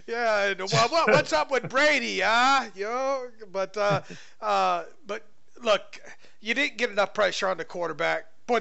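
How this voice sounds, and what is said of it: Put-on Southern New England accent. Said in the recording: “those are poor New England accent. That's a Southern New England accent for you.”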